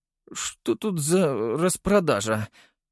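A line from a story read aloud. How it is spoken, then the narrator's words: Tired question with yawn. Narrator (Russian): спросил он и устало зевнул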